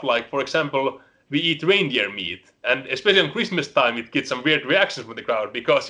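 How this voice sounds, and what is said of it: Finnish accent. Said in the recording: “I'm the only Finnish wrestler ... you can all hear my accent, so I can never hide that”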